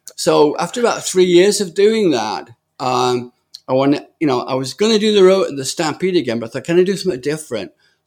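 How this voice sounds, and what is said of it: British accent. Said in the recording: “listened to my accent and just shook their heads ... what the hell is this British guy doing talking about rodeo?”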